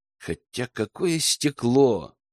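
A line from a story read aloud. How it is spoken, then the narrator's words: Muttered. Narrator (Russian): пробормотал Герман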